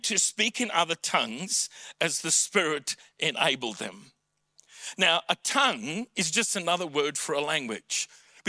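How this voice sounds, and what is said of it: South African English accent. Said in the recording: “my mother tongue is English with a South African accent”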